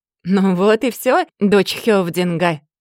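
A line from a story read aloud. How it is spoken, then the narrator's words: Loud guffaw. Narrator (Russian): захохотал Сигурд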